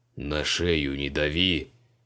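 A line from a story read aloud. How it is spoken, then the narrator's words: Menacing deep guttural demand. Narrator (Russian): Грозно потребовал Криол утробным голосом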